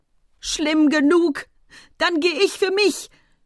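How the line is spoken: Howling scream. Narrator (German): schrie mit einer Stimme, die wie Heulen klang

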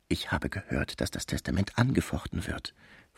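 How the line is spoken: Whispered into ear. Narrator (German): flüsterte ins Ohr

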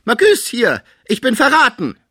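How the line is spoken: Sick man calling out. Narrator (German): als der Kranke rief

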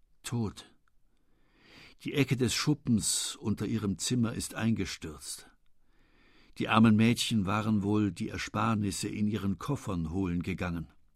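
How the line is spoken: Very quiet speech. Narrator (German): er ... sagte ganz leise

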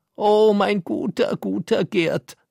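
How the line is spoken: Woman sobbing and screaming. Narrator (German): fiel sie schluchzend auf einen Fauteuil und schrie

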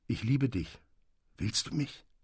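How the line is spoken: Soft male voice. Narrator (German): sagte er mit leiser Stimme

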